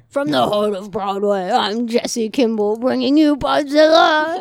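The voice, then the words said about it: Impression of a co-host's announcer voice. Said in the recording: “Spot on impersonation of me”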